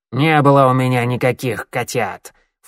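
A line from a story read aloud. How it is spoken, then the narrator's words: Snort. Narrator (Russian): фыркнула Щербатая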